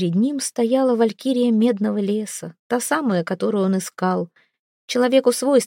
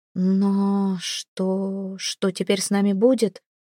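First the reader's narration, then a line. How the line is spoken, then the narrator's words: Quiet question. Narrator (Russian): тихо спросила Эйра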